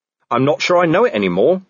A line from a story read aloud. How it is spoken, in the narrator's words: said Vimes